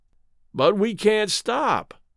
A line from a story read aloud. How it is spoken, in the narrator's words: Charlie groaned